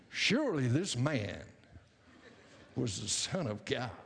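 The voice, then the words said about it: Bad Texan drawl impression. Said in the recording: “I love John Wayne ... sounded like the Roman soldier was from Texas ... that was a horrendous impersonation.”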